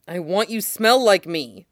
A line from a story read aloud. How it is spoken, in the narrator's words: Sid growls